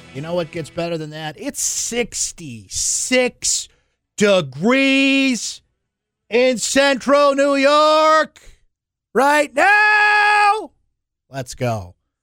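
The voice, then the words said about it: Yelling excitedly. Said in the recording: “Watch a man yell into a microphone? ... I don't know why I'm yelling.”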